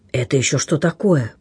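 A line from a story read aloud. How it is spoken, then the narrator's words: Fisherman whispering. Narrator (Russian): прошептал рыбак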